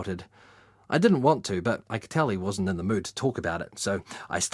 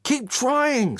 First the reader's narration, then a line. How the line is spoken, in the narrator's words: screamed Dan